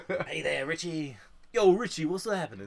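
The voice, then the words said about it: Tim Curry's Pennywise impression. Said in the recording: “your other impression of, like, Pennywise, the Tim Curry one”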